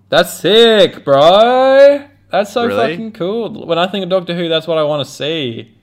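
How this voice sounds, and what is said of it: Sarcastic, mock-enthusiastic tone. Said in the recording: “I'm being sarcastic.”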